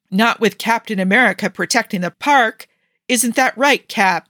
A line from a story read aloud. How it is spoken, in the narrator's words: he yelled